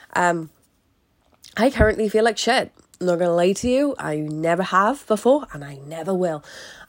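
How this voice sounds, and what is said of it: Congested, blocked-nose voice from a cold. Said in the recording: “my voice is a little bit different to normal ... I have the common cold. I can't breathe through my fucking nose”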